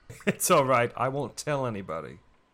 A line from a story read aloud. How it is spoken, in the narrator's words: he chuckled